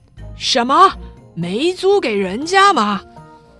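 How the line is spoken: Loud question. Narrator (Chinese): 葛尼玛大声地问

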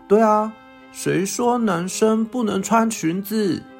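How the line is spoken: Laughing. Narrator (Chinese): 这时候阿旺也会笑着说

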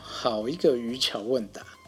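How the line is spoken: Asking. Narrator (Chinese): 樵夫就开始问啦

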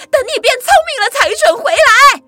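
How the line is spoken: Loud, from behind. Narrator (Chinese): 妈妈在后面大声地说

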